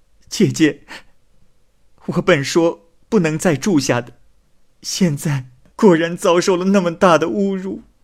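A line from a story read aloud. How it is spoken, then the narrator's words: Panicked, crying. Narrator (Chinese): 风三娘慌慌张张的……哭着说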